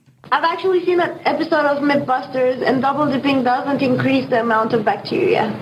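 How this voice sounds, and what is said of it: Woman with a slight accent. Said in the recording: “She has like a little bit of an accent.”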